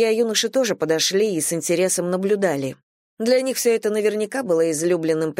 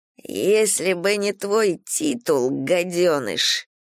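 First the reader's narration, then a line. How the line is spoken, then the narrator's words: Spluttering hiss, young man. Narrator (Russian): прошипел юноша, брызгая слюной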